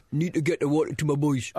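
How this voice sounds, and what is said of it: Imitates another person's voice. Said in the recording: “Jack, 1994, Ireland manager ... That's nearly a good impression ... It's very weird ... It's getting more and more strange”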